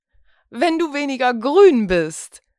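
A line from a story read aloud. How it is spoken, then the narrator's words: Laughing reply. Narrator (German): erwiderte lachend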